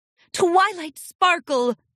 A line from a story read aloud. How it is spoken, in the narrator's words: Celestia exclaimed